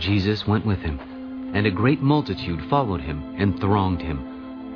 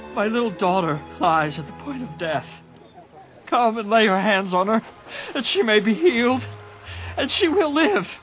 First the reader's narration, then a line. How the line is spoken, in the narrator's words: begged him earnestly